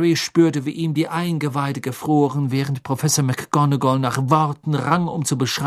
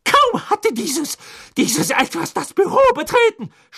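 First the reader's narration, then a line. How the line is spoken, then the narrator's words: Trembling scream. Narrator (German): schrie sie und deutete am ganzen Leib bebend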